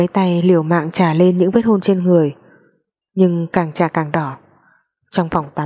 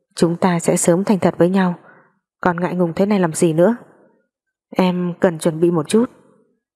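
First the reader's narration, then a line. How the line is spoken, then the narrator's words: Soft laugh, from outside door. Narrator (Vietnamese): Lý Trọng Mạnh ngoài cửa khẽ cười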